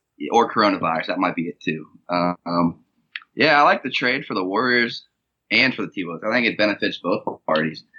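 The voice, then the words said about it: Raspy, hoarse voice. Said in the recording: “I sound a little raspy... my flu game”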